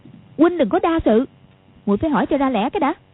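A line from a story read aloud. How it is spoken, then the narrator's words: Angry. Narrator (Vietnamese): Quách Phù đang tức giận, nói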